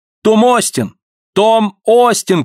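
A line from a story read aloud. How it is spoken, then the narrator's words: Boy shouting. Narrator (Russian): кричал мальчуган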